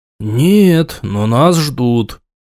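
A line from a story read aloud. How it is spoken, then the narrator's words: Through gritted teeth. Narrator (Russian): сквозь зубы процедил Тарк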